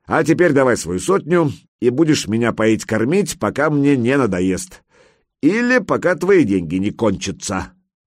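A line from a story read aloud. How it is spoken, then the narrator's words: Warrior's chuckle. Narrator (Russian): Берсерк хохотнул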